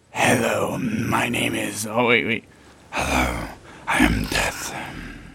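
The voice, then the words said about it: Spooky voice. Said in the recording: “Do a spooky voice.”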